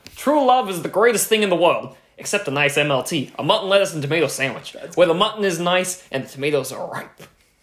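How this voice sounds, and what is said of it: Good impression of a film character. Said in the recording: “accent ... that was Max from The Princess Bride ... that was a really good impression.”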